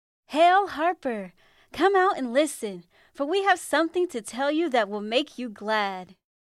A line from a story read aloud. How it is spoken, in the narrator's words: The messengers called out